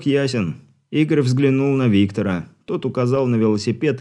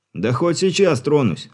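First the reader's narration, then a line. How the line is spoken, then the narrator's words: Snapping, irritated. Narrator (Russian): огрызнулся машинист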